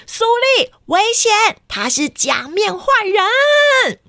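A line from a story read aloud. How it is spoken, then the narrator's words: Through a megaphone. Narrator (Chinese): 黄色哨子超人拿起了大声公，就说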